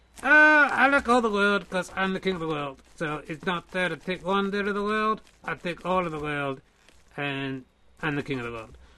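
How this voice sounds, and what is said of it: Character voice with mixed accent. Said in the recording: “Where is your accent from? ... It's from the world. It's all the accents of the world mixed together”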